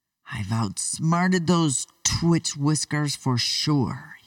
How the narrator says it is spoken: exclaimed

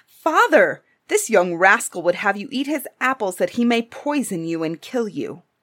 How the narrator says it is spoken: they cried out

